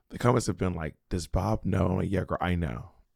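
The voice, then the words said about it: Strained, damaged-sounding voice. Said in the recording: “thank you all for your concern regarding my vocal cords. And I am completely aware of how I sound ... I'm concerned about my voice. I'm aware that my voice sounds crazy.”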